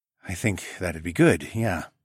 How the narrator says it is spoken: I breathed, when we finally came up for air

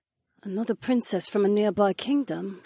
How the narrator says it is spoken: Sienna murmured distractedly

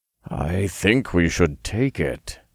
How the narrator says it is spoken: he murmured

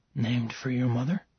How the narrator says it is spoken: whispered

